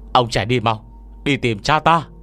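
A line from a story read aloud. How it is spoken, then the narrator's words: Shouting urgently. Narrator (Vietnamese): Lao Trình hét lên với Ngô Miễn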